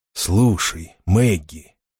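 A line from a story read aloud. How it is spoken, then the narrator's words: Quiet. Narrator (Russian): тихо сказал он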